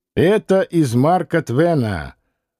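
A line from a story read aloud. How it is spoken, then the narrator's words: Loud laughing explanation. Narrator (Russian): громко захохотав, Стратонов объяснил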